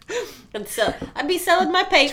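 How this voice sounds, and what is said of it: Thick put-on Brooklyn accent. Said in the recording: “I'd do just a real thick Brooklyn accent”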